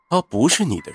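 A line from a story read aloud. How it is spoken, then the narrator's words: Cold. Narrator (Chinese): 云峰便冷冷的说道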